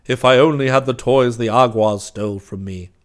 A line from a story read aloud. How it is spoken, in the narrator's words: said Claws sadly